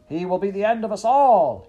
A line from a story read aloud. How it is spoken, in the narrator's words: he shouted